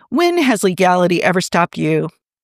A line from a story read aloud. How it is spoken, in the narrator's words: Steve laughed